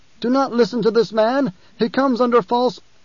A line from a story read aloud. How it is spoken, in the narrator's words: called out